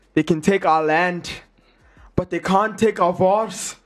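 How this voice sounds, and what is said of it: Imperfect put-on Scottish accent. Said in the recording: “I'll do a Scottish accent ... it's not perfect. I'm not from Scotland ... tell me how I did that Scottish accent”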